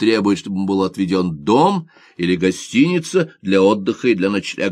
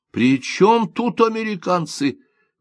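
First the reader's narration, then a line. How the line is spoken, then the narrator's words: Exclaiming. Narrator (Russian): воскликнул губернатор Симода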